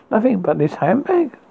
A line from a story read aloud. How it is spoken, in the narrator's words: laughed the other, thinking of joking